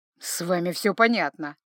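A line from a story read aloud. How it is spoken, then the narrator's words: Snort. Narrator (Russian): фыркнул Джанни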